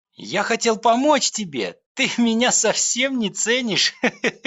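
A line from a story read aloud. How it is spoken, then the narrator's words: Laughing. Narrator (Russian): рассмеялся толстяк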